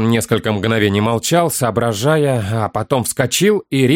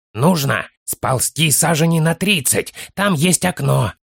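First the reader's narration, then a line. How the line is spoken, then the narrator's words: Child's loud whisper. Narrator (Russian): Громким шепотом сообщил малыш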